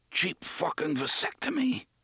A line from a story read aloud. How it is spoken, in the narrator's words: he said hoarsely